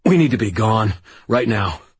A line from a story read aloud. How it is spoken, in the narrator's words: choked out